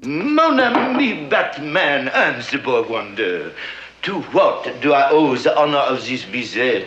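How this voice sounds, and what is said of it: Convincing put-on French accent. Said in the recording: “doing a pitch-perfect French accent”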